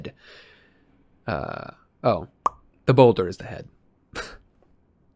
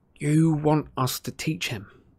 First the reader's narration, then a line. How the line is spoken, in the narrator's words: Harry said in a hollow voice